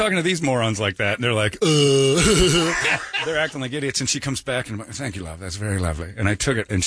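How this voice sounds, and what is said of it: Usual voice. Nothing is said of it.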